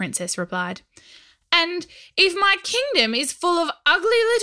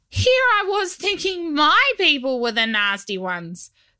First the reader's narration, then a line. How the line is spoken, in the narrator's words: Scrat laughed